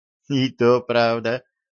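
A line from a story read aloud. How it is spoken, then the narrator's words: Laughing. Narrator (Russian): засмеялась Джейн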